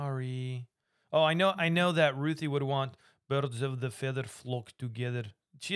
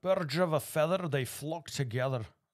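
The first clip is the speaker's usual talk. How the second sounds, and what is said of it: Sean Connery impression. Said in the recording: “You say it in some accent for me, though? ... Kind of like your Sean Connery.”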